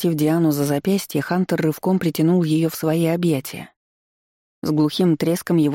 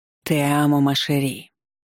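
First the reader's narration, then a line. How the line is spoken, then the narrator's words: Low muffled voice. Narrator (Russian): глухо произнёс он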